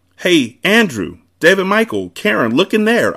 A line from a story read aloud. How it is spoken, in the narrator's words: I cried